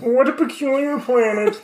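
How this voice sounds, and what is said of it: Cartoon Marvin the Martian voice. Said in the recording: “Not an accent, but I can do Marvin the Martian, which is like kind of sick. ... Which is kind of like Kermit.”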